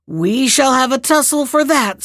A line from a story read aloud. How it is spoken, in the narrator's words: screamed the troll